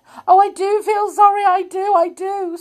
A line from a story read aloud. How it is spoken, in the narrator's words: sobbed Amelia